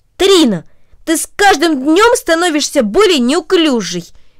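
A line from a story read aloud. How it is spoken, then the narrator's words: Angry. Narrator (Russian): сердито произнесла Ника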